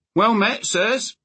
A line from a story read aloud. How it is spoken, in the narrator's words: Dunk called out in a cheerful voice